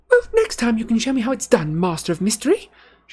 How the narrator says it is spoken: she snapped

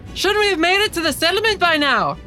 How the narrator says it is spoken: Mara kind of yells to her dad, just says

